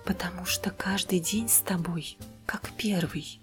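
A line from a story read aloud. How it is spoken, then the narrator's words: Whisper. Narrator (Russian): прошептал он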